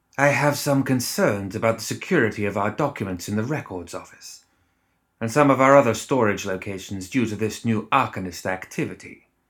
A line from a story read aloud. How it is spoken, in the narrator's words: Lucius said, his voice thoughtful